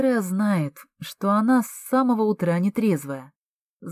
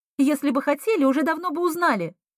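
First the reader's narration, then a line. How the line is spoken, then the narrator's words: Angry, curt. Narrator (Russian): зло бросила Эмма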